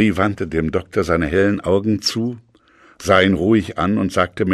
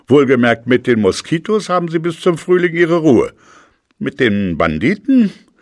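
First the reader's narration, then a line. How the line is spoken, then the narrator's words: Laughing. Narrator (German): lachte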